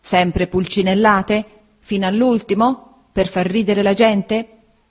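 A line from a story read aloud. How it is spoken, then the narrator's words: Exclaiming. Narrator (Italian): esclamò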